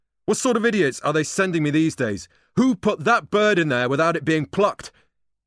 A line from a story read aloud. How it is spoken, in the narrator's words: barked